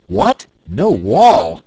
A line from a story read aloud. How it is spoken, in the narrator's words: exclaimed the Wizard